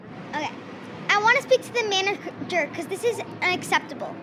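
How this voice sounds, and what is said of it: Demanding, entitled complaining voice. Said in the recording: “do an impression of a Karen”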